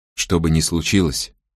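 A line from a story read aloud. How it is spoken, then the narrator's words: Whispering. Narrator (Russian): прошептал Мо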